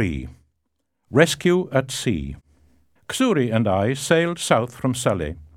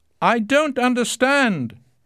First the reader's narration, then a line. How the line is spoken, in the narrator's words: I shouted in English